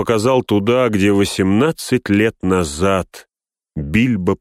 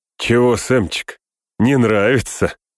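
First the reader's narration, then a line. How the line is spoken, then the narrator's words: Short laugh. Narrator (Russian): хохотнул он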